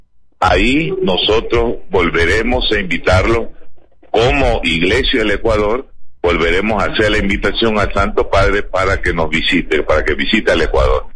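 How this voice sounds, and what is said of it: Beautiful announcer-like voice. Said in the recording (Spanish): “hermosa voz, una voz de locutor.”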